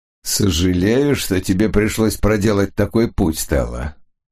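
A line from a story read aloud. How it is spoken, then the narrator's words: Mocking greeting. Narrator (Russian): насмешливо приветствовал ее Фогель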